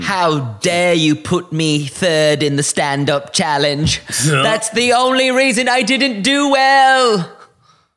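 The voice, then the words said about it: Put-on British accent. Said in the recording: “that's my British accent because I couldn't do a proper Lawrence Cheney ... That one's better.”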